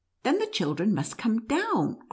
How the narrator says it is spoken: cried Fred

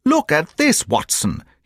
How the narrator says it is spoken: he cried

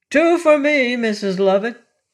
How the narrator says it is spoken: cried a voice

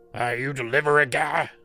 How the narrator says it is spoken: he barked at me

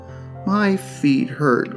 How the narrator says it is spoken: groaned Lot

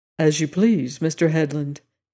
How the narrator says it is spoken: said gravely

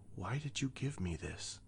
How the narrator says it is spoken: She whispered

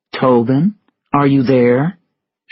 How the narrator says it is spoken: she asked

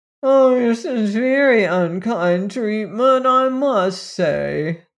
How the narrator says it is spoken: whined the phonograph in an injured tone

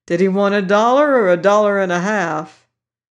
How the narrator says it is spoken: blurted out the enthusiast

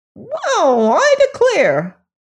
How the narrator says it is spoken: Billina exclaimed

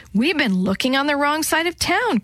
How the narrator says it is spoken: Chris said excitedly

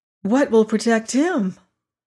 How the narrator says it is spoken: said the girl anxiously

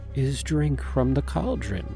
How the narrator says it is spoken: Hawthorne continued, her voice hypnotic

